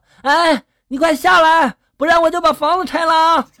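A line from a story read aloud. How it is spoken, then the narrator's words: Worried shout. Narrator (Chinese): 院长 担心出事啊，就立刻对这个神经病喊了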